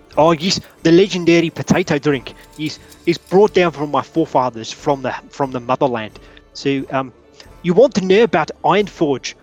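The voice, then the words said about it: Put-on accent drifting, inconsistent. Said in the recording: “I don't know where my accent is going right now. It sounds a little bit off. It's sort of drifting all over the place.”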